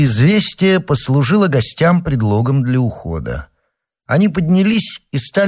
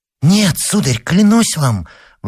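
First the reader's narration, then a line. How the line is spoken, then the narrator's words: Girl exclaiming. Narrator (Russian): воскликнула девочка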